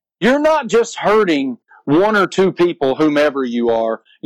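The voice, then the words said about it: Accented, fired-up passionate speech. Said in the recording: “his accent, everything. He was fired up about this. He was super passionate”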